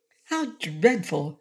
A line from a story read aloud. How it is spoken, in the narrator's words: exclaimed